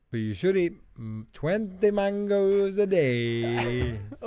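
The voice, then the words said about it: Slight put-on accent. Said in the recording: “That was a slight accent. I like that.”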